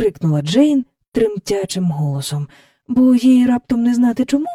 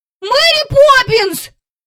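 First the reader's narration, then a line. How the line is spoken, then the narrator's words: Frightened shout. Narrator (Ukrainian): закричав і Майкл, зненацька й собі злякавшись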